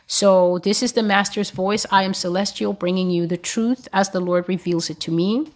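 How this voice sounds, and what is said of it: Worn, tired-sounding voice. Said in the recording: “excuse my voice, it's been a long day.”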